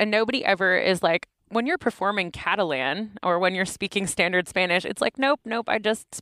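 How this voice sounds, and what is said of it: Usual voice. Nothing is said of it.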